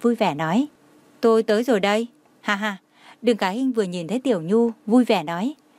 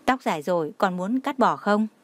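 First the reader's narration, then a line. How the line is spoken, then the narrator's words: Gentle. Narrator (Vietnamese): Tô Thụy Kỳ dịu dàng nói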